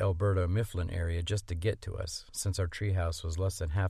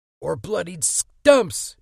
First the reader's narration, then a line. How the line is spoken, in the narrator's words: Eddie screamed